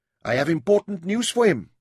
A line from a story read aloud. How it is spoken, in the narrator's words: snapped